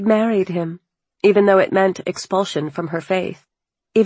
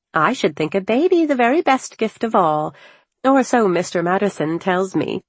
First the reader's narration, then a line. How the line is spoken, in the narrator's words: chirped